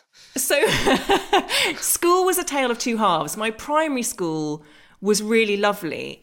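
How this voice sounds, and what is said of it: English accent. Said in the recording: “With your English accent.”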